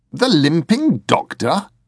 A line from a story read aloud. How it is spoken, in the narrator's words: snorted